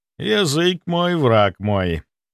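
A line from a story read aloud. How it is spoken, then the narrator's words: Drawn out. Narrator (Russian): Протянул я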